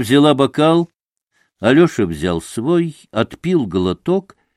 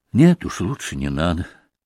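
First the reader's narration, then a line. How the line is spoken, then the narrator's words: Quiet smiling. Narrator (Russian): улыбнулся он тихо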